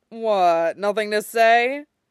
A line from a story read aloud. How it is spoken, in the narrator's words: Hawk chuckles